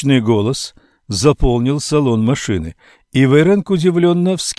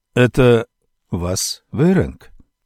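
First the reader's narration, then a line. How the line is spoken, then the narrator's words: Quiet question. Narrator (Russian): тихо спросил Адамберг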